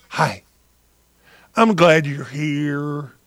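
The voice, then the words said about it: Creepy put-on voice. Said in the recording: “My creepy voice”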